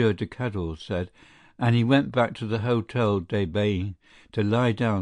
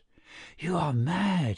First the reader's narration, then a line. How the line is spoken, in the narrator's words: he said in a whisper